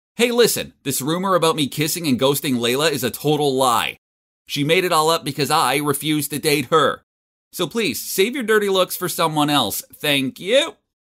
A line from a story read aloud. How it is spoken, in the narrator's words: I shouted so everyone could hear me